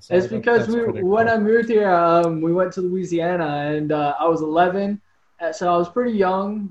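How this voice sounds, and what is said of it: American accent. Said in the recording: “And then you listen to me now, and I sound straight American.”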